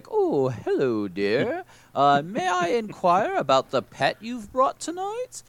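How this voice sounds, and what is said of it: Very fancy, posh put-on voice. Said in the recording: “the game suggests you talk in a very fancy voice.”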